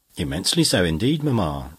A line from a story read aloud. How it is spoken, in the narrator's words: replied she